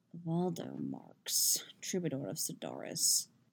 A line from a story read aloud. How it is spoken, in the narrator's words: the Asker is murmuring, low enough that only Geralt can hear